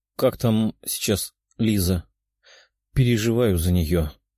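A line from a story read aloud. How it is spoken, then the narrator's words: Sad question. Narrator (Russian): грустным голосом спросила Катя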